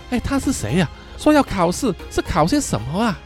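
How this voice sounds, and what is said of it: Quiet, hushed question. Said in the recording (Chinese): “小声的问”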